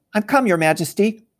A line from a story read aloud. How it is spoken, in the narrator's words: said Edmund, rushing eagerly